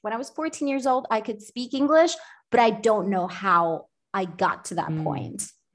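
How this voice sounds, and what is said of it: American accent. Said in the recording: “this American accent”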